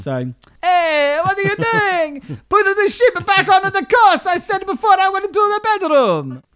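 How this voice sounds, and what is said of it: Put-on seafolk, Italian-sounding accent. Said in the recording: “our West Country accent ... This is not a West Country accent. It's a general seafolk accent ... He sounds Italian, doesn't he?”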